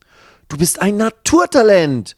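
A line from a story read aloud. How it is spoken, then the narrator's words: Called out. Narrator (German): ruft Max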